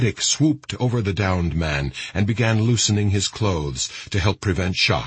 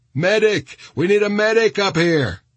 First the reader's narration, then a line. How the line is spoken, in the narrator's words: Lepree's voice joined others shouting